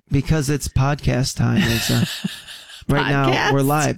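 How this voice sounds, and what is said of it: Sad, creepy voice. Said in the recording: “sad, creepy voice”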